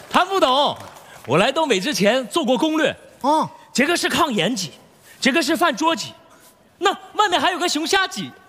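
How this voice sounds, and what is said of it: Southern Chinese accent. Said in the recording (Chinese): “听口音是南方小伙伴吧？”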